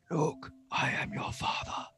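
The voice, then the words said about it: Weak Darth Vader impression. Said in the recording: “It's hard to do a Darth Vader voice. So I'm not that good.”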